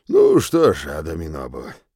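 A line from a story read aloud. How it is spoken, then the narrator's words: Sigh. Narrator (Russian): вздохнул Фонтей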